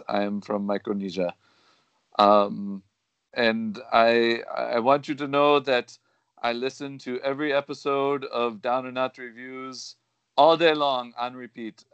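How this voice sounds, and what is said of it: Exaggerated put-on foreign accent. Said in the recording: “his horrible accent?”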